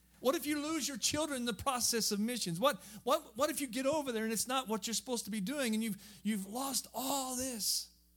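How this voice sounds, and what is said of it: Southern Missouri hillbilly accent. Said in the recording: “I'm just a hillbilly. I'm from southern Missouri. And you may be able to tell by my voice that my accent”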